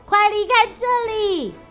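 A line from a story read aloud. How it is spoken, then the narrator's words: Urgent shout. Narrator (Chinese): 鼹鼠大喊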